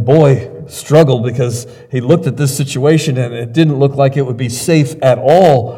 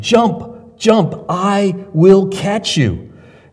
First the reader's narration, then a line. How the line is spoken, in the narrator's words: his father cried to him